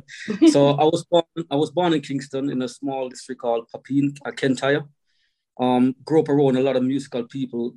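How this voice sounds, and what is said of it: Strong Jamaican accent. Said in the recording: “you've got that strong accent going on ... I'm from Jamaica”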